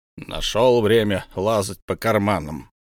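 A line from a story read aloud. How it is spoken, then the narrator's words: Grumble. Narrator (Russian): проворчал Бомбур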